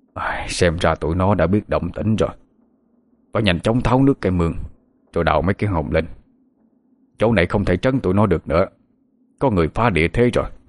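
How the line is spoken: Muttering to himself. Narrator (Vietnamese): Thầy Ba, lẩm bẩm một mình

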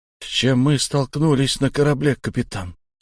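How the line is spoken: Quiet question. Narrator (Russian): тихо поинтересовался Шон

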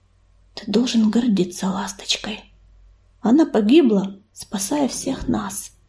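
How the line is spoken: Quiet repetition. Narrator (Russian): тихо повторил

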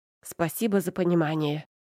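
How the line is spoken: Snapping. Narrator (Russian): огрызнулась я

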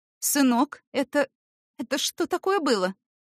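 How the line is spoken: Mother asking. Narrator (Russian): спросила мать

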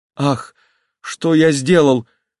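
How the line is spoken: Sudden cry. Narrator (Russian): вскрикнул он

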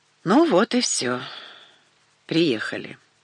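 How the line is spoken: Sighing. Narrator (Russian): вздохнув, сказала я

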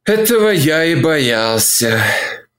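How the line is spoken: Frowning remark, sighing. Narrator (Russian): заметил, нахмурившись, и вздохнул

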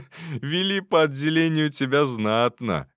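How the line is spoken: Short laugh. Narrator (Russian): хохотнул Никита

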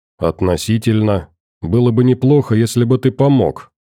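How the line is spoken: Calm reply. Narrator (Russian): спокойно ответил товарищ

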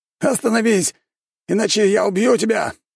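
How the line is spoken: Shouting. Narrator (Russian): выкрикнул

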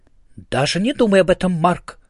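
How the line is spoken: Stern warning. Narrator (Russian): строго сказала Ида

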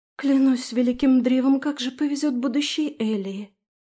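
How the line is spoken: Breathed out. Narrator (Russian): Выдохнула Трис

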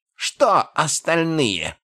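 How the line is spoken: Roar. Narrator (Russian): взревел морг

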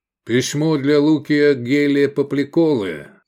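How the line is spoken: Loud announcement. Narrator (Russian): громко повестил

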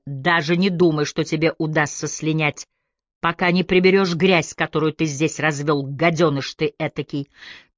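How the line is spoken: Growling. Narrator (Russian): Табу зарычал

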